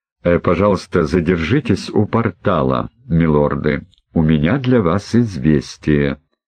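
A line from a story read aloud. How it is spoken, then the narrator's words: Low voice. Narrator (Russian): вполголоса произнес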